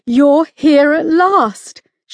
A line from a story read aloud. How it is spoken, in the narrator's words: she sobbed